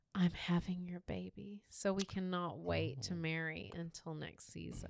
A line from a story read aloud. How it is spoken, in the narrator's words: she whispered